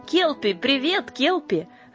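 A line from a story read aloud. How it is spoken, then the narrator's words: Joyful group shouting. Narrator (Russian): радостно закричали келпинки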